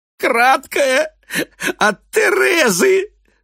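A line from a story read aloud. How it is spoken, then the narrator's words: Strained, through laughter. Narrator (Russian): С трудом выдает он сквозь смех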